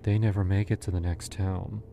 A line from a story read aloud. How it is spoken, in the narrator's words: she said, almost sadly